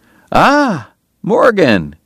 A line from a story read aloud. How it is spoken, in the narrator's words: Doc cried genially